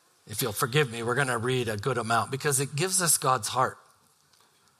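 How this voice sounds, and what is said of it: Usual voice. Nothing is said of it.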